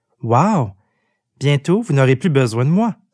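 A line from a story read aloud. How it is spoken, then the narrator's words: Exclamation. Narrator (French): s'exclama Jim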